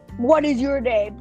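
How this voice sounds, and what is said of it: Loud, rude-sounding voice. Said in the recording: “Don't be, like, rude and, like, loud like that”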